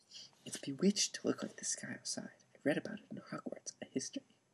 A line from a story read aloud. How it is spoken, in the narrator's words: He heard Hermione whispered